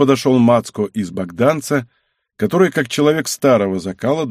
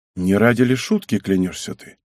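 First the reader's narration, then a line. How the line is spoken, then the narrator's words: Plain. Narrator (Russian): Збышка ответил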